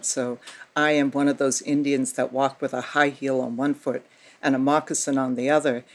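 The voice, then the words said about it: Boston accent. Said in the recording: “I got a Boston accent,”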